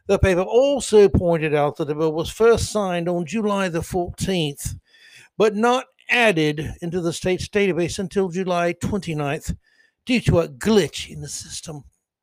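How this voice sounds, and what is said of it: Put-on British accent. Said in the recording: “I've got my British accent out of the way for today, folks. ... I could just go into a Class A British accent like that”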